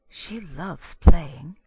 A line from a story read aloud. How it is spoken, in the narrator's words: he whispered